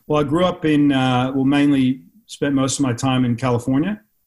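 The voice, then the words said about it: Slight American accent. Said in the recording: “I can hear the trailings of an accent ... I picked the accent up in the States, and it doesn't go away”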